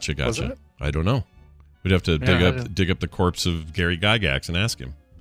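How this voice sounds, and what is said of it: Usual voice. Nothing is said of it.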